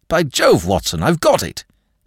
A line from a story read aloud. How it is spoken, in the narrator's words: cried